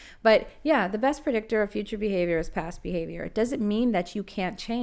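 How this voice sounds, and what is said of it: Usual voice. Nothing is said of it.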